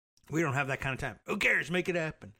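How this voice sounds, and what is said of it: Gruff voice imitating another person. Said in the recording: “my the imitation is falling by the wayside. I'm just using generalized gruff voice now for Trump”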